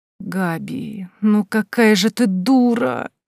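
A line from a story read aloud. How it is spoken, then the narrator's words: Groan. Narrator (Russian): простонала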